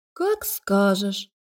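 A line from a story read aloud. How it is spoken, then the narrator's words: Disappointed drawl. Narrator (Russian): разочарованно протянула Лика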